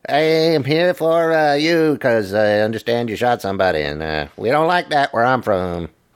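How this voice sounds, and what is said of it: Poor imitation of another person's voice. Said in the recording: “That was a terrible Dave Chappelle impression.”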